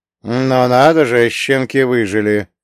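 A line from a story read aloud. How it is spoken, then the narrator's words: Grumbling. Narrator (Russian): пробурчал Карло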